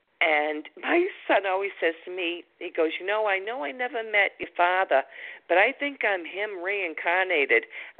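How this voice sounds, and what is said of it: Noticeable regional accent. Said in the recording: “I love your accent.”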